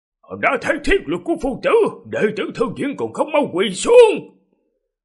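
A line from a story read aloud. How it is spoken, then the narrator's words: Loud shout. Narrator (Vietnamese): Lão Tế Tiểu lớn tiếng quát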